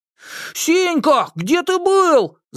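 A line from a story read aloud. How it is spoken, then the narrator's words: Distant shout. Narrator (Russian): закричал он издалека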